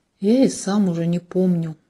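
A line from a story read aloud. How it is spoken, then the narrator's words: Sighing. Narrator (Russian): вздохнул Максимилиан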